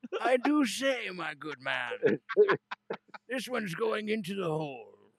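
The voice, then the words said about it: Unconvincing put-on British accent. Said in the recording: “We need to work on your British accent, I think. ... Dick Van Dyke accent. ... I want you to read me stories in that voice, but I don't know if it's British.”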